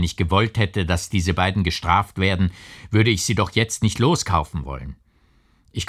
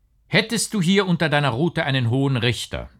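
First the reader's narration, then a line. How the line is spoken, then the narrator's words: Plain. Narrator (German): sagte K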